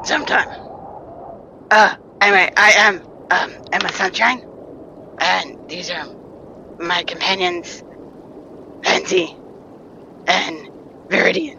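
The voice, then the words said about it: Character voice with a lovely accent. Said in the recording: “Oh, I am in love with your accent. ... What a beautiful accent.”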